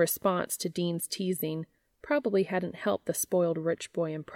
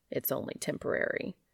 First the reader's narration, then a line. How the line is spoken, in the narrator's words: His defensive reaction and muttered